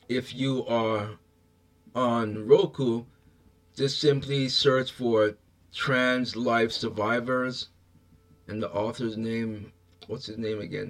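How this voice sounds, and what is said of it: Strained, fading hoarse voice. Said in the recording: “I'm losing my voice. I've been talking for quite some time now. ... I'm losing my voice here. Losing my voice.”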